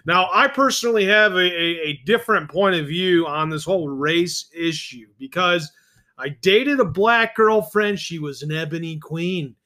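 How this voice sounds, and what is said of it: Imitates another person's voice. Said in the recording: “my Donald Trump impersonation. Mixed with a little John Lovitz.”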